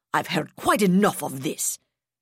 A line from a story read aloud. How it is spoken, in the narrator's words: Duenas snapped